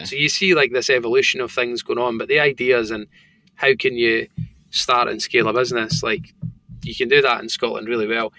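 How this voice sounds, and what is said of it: Thick Scottish accent. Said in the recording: “I've got a thick Scottish accent. Depending where I am, people kind of squint and really struggle to understand what I'm saying.”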